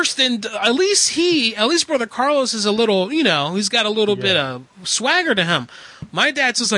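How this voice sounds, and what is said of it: Usual voice. Nothing is said of it.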